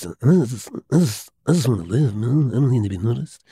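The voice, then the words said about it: Good Marlon Brando impression. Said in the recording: “That was a pretty good impression. ... Yeah, I do him all right.”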